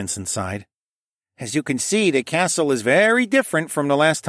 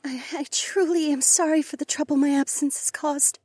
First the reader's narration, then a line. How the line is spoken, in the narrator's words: Rachel said in a trembling voice